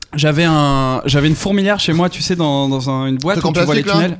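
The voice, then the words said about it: Regional French accent. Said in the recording (French): “Elle a un accent.”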